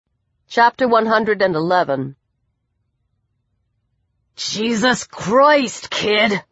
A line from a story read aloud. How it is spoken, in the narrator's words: the bald boy snarled